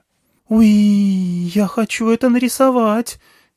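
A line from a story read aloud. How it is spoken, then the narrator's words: Squeaking. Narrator (Russian): пискнула сзади Нагма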